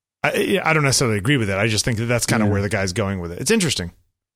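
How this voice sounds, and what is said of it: Hoarse voice. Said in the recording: “I'm hoarse today. You have, you noticed that?”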